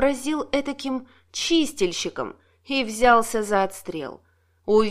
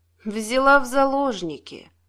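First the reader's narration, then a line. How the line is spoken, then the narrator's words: Gloomy. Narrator (Russian): мрачно ответил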